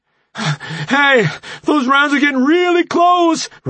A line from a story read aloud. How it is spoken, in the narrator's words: Remy gasped